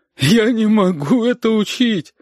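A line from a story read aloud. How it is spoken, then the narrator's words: Sobbing. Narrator (Russian): Оксана всхлипывала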